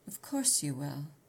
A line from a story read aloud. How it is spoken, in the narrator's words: he returned softly